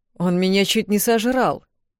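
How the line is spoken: Indignant. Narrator (Russian): возмущенно произнес Алекс

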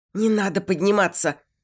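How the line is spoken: Frightened. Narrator (Russian): испуганно

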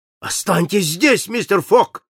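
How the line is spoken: Shout. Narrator (Russian): крикнул Паспарту

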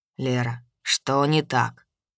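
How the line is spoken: Sleepy question. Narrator (Russian): сонно спросил Йен

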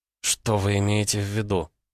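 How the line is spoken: Very quiet girl's voice. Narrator (Russian): совсем тихо произнесла девушка

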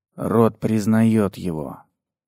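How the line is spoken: Quiet reply. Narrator (Russian): так же тихо ответил принц

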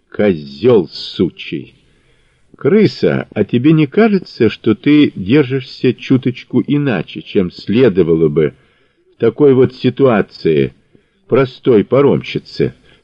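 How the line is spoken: Calm question. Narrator (Russian): спокойно спросил Мазур

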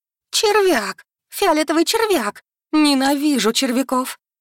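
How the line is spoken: Shrieking. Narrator (Russian): Взвизгнула вампирша

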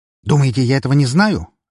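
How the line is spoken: Barked. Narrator (Russian): рявкнул на него адвокат

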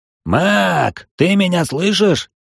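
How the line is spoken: Shouted. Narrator (Russian): прокричал Сарт

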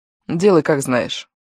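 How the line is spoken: Cold. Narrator (Russian): Я холодно произнесла

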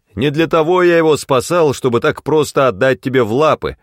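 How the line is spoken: Shouted. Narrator (Russian): закричал я

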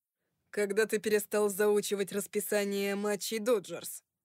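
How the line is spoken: Laughing. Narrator (Russian): Вик рассмеялся

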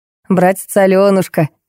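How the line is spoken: Giggling. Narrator (Russian): хихикнул Костя

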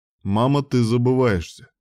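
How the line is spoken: Grim warning. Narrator (Russian): мрачно предостерег ее Грейсток

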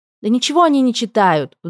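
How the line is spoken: Young woman's sudden exclamation. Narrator (Russian): вдруг воскликнула молодая женщина

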